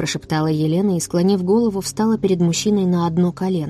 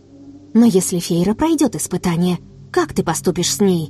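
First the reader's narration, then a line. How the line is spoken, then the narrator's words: Agitated, anxious. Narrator (Russian): Взволнованно продолжила Елена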